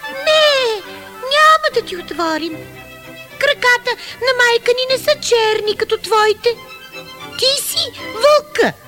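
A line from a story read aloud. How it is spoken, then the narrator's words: Young goats shouting. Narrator (Bulgarian): козлетата извикали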